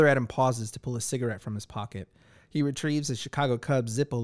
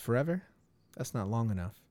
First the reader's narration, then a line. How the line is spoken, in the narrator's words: softly replies